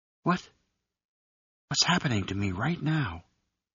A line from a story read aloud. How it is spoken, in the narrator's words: she whispered